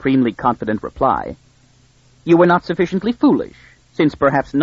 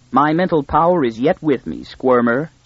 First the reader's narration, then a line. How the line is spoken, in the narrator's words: said the mule